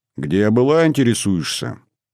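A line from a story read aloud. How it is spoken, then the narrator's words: Icy, then raised voice. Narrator (Russian): проговорила она ледяным тоном и тут же повысила голос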